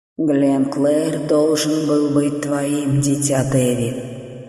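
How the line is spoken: Plain. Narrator (Russian): сказал он

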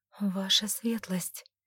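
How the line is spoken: Barely audible mumble. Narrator (Russian): Еле слышно пробормотала

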